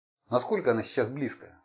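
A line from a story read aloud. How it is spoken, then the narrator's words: Plain. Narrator (Russian): спросил Шарпс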